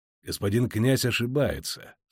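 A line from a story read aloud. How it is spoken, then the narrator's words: Calm objection. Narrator (Russian): спокойно возразил Геральт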